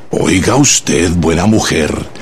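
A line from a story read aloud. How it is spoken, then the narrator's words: Low, grim, menacing. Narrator (Spanish): le dijo en voz baja, sombría y amenazadora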